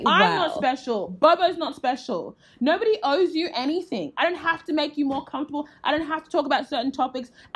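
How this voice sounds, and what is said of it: Yelling, loud forceful voice. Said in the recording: “I'm yelling so you will listen ... I gotta yell so you'll listen. If I said this in a chill voice”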